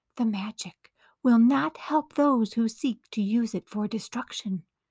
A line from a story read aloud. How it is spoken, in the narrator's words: came the whispering voice